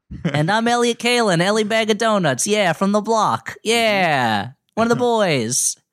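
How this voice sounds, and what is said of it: Put-on period regional accent. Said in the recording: “period-appropriate and region-appropriate accents”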